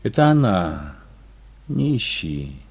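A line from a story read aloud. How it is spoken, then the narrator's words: Sad. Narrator (Russian): сказала Ия печально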